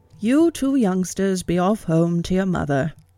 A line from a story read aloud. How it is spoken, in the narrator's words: said the badger kindly